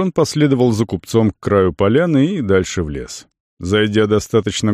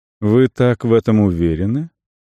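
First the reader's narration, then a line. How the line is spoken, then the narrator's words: Calm questioning. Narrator (Russian): Купец задавал вопросы спокойным тоном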